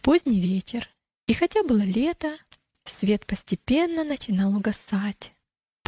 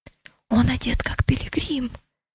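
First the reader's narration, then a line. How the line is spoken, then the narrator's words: Whispering. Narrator (Russian): прошептал Матфей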